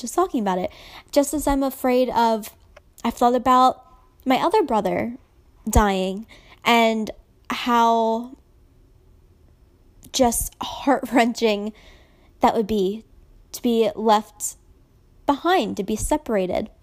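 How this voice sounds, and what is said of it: Emotional, choked-up voice. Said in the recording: “I'm getting emotional. I shouldn't say I'm sorry. I'm getting emotional”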